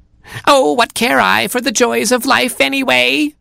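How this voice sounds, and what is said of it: Foxy vixen character voice. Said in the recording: “in a foxy voice”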